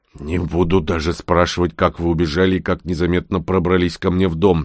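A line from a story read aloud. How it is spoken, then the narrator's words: Grumbling. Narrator (Russian): проворчал я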